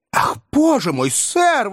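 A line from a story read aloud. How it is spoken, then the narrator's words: Woman's exclamation. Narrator (Russian): воскликнула миссис Бардл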